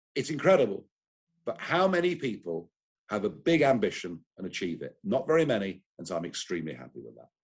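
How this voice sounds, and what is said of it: British accent, articulate. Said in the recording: “a guy with a British accent ... he's also incredibly articulate ... He sounds great.”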